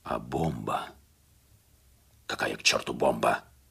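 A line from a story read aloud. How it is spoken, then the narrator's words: Hissed at someone. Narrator (Russian): Прошипел на него Загерс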